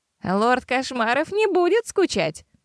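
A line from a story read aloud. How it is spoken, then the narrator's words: Laughing, many voices. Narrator (Russian): рассмеялись хайтеры на разные голоса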